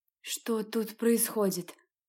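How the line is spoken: Trembling voice, young woman. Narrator (Russian): дрожащим голосом спросила студентка

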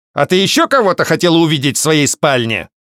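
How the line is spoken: Angry blurt. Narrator (Russian): зло выпалил мужчина

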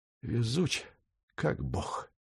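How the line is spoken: Drowsy fading mutter. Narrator (Russian): пробормотал Феб, качаясь на носилках и уплывая в заслуженное забытье

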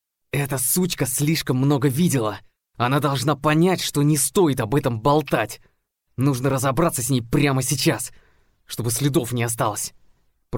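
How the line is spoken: Hissed. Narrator (Russian): Прошипел он

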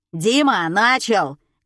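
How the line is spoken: Barking shout. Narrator (Russian): гаркнул Олег

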